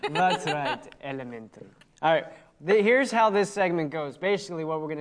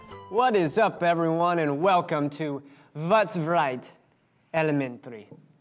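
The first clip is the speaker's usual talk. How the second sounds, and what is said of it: Put-on Transylvanian accent. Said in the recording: “Transylvania accent. That was nice.”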